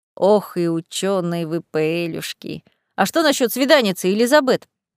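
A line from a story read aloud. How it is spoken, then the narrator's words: Purring. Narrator (Russian): мурлыкнул Фабьен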